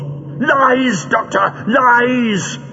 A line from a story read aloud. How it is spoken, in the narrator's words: shrieked Greel